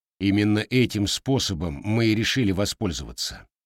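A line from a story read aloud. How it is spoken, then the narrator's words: Quiet giant after pause. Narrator (Russian): помолчав, тихо сказал гигант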